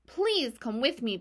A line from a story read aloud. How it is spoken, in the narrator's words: begged Wilbur